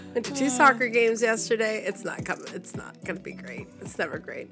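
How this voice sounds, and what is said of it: Hoarse, strained voice. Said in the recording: “My voice is so jacked... No, not after all that yelling.”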